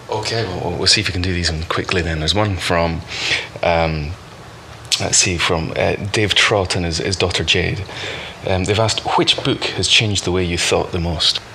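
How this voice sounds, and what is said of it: Scottish accent. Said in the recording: “it's my strange Scottish accent.”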